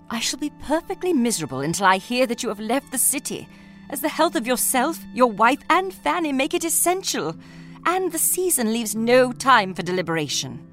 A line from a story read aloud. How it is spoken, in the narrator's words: She pleaded